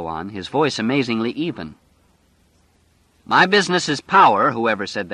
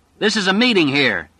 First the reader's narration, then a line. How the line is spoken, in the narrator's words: he shouted